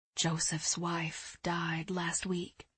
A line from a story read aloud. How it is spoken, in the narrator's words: Eliza whispered